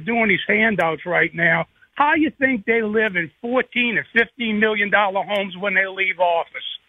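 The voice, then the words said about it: Cajun accent. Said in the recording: “I love that Cajun accent”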